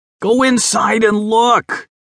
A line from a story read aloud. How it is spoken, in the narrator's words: Philip shouted